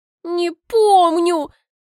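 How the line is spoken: Trying to sob. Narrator (Russian): пытаюсь рыдать

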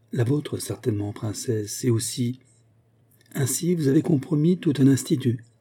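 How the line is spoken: Added cheerfully. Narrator (French): ajouta gaiement

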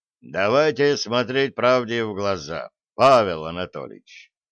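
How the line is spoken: Stern. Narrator (Russian): строго сказал Верховный

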